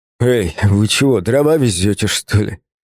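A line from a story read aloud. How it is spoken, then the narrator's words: Hoarse wheeze. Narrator (Russian): прохрипел я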